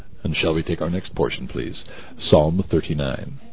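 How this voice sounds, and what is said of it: FM radio DJ voice. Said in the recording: “That was my best FM DJ voice.”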